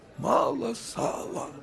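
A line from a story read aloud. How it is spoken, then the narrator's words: Faint moan. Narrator (Russian): Чуть слышным голосом простонал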